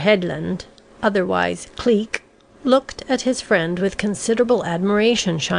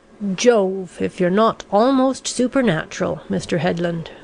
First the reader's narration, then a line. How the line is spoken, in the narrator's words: returned that gentleman with a heavy sigh